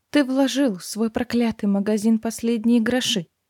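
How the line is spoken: Tired, after a pause. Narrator (Russian): немного помолчав устало произнесла

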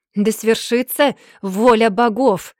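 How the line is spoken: Fierce roar. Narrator (Russian): проревел он

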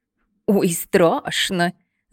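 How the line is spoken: Laughing. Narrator (Russian): засмеялась та

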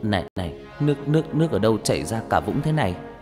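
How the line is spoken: Trembling reply. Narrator (Vietnamese): anh mới đáp bằng cái giọng run run

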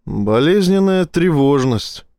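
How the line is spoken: Gloomy. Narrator (Russian): мрачно кивнул Вернер

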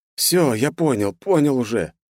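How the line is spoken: Hoarse, dry croak. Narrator (Russian): прохрипел я пересохшим ртом

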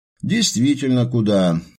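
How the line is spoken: Agreeing mutter. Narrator (Russian): Словно соглашаясь, пробормотал Дронго

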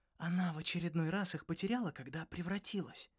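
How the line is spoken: Whispered. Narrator (Russian): шепнула мне Шарри

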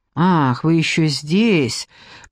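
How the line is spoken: Grumbling. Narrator (Russian): проворчал

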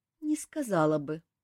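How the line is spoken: Sighing. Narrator (Russian): вздохнула та

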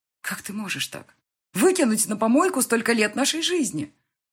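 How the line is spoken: Exclaiming. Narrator (Russian): воскликнула

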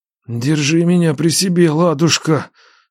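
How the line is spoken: Moaning. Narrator (Russian): стонал Нечай

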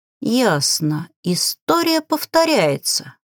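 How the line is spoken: Thoughtful. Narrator (Russian): задумчиво произнесла я

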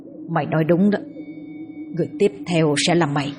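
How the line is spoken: Muttering. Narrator (Vietnamese): Nó lẩm bẩm trong miệng

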